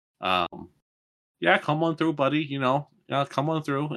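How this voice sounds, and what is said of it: Put-on Minnesota accent. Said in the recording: “this is the Minnesota accent, you know, which I picked up briefly on my way back.”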